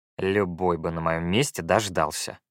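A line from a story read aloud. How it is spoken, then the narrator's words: Muttered. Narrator (Russian): буркнул я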